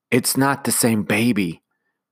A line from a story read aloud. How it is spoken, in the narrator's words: Jane whispered to Tim